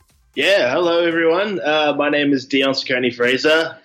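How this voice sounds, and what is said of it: New Zealand accent. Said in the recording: “I have a weird accent. I'm originally from New Zealand.”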